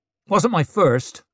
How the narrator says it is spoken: snapped Ricker

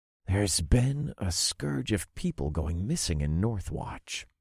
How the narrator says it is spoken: I said in a low voice

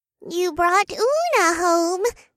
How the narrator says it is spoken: the flowers giggled

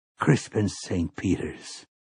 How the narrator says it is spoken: he murmured

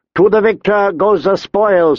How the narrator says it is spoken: he called out

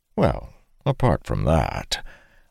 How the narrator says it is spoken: Arik acknowledged with a slight chuckle

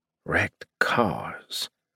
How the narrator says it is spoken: I muttered

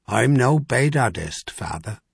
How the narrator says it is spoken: he said almost gently

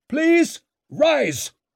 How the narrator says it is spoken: bellowed Bruckle

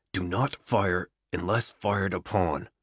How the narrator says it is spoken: the Sarge whispers

